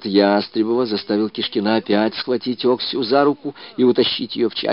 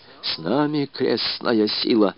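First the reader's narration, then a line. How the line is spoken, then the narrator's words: Whispering. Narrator (Russian): шептал он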